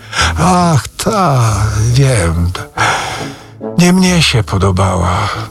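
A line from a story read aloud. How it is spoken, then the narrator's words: Sigh. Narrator (Polish): westchnął Rzecki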